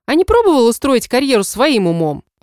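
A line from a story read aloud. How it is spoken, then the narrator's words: Snapped back. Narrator (Russian): огрызнулась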